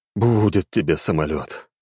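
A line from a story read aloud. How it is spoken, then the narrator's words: Sighing. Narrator (Russian): вздохнул Гагарин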